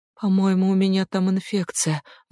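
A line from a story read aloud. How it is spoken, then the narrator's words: Sigh. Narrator (Russian): вздохнула Эмми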